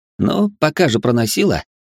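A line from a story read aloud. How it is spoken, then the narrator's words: Smirking grunt. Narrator (Russian): хмыкнул я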